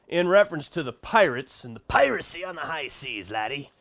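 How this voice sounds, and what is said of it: Put-on pirate voice. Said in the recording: “I just like to do that pirate voice.”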